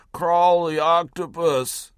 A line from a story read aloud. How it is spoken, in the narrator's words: groaned something that sounded like